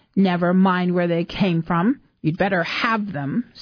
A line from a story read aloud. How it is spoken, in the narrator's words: said Emma crossly